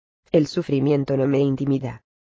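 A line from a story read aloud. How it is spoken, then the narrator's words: Humble sigh. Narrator (Spanish): suspiró la víctima con humildad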